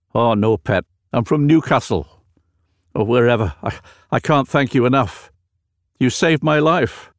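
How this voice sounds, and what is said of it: Strange unfamiliar regional accent. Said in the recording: “a strange accent that was totally foreign to my ears”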